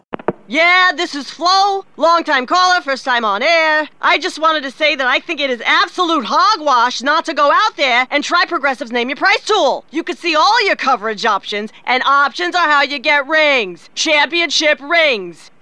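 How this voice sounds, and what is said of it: Sports talk radio caller voice. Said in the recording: “my impression of someone calling into Sports Talk Radio”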